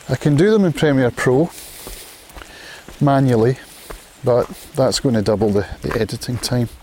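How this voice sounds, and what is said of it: Scottish accent. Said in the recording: “from having been Scottish all my life ... the Scottish accent is a difficult one”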